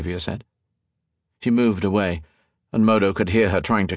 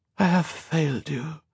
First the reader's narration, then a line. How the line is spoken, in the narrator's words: Colette said in a faltering voice